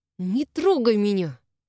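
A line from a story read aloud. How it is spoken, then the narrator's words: Hissing. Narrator (Russian): Зашипела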